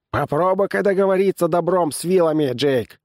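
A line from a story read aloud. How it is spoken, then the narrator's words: Wry snort. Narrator (Russian): хмыкнул Эбнер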